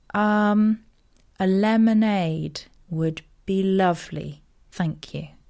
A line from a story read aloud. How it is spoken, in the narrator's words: said slowly